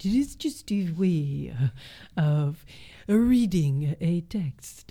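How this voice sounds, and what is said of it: Put-on French accent. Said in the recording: “If I could do a nice French accent ... You make a really good accent.”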